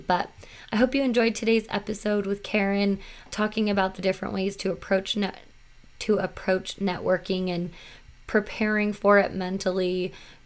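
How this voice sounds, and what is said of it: Raspy, recovering voice. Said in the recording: “lost my voice ... I started getting a cough and pretty much completely lost my voice. So it is slowly coming back, and that is why I'm sounding a little bit more raspy.”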